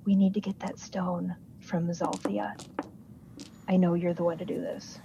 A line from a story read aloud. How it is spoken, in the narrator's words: quietly say to him